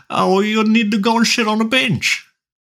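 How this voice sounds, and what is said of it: Put-on South African accent. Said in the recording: “South African accent”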